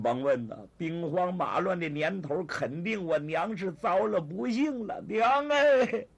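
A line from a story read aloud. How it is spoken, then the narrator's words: Wailing, grief-stricken. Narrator (Chinese): 他对着倒塌的房子痛哭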